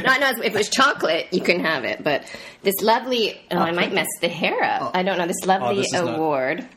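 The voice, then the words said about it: Lower, nasal, husky voice. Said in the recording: “my voice is a little bit lower and a little bit nasally ... the sexy husky voice ... I'm so nasally”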